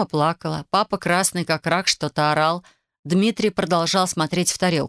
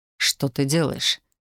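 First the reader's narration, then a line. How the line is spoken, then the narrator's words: Quiet question. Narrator (Russian): тихо спросил он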